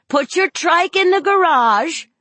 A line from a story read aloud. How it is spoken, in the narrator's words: Donna yelled